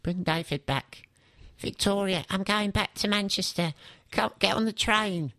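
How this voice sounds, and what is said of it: Imitates another person's voice. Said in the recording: “my Beckham impression”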